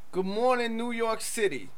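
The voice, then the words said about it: Poor put-on New York accent. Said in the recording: “That's an interesting voice to adopt. ... It's a very poor New York accent.”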